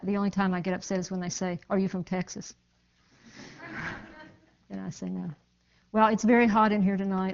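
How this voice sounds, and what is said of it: Mountain accent. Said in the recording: “you don't have a Southern accent, you have a mountain accent, and that's right.”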